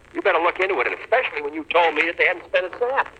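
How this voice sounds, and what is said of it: Boston accent, yelling. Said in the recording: “the Boston accent is a fucking silly accent... It does not make you sound dignified... It sounds so cartoonish to me. Like, it doesn't sound like a real person talking... he's just yelling at this poor guy”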